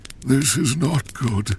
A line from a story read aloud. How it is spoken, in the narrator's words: he whispered